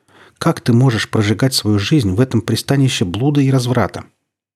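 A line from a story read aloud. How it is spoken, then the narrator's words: Plain. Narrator (Russian): тот говорит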